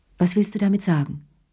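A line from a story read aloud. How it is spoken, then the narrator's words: Plain question. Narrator (German): fragte sie schließlich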